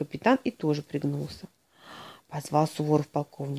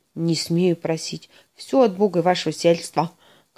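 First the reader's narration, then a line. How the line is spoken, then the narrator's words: Barking colonel. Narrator (Russian): гаркнул полковник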